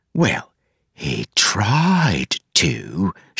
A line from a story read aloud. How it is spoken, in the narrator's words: she whispered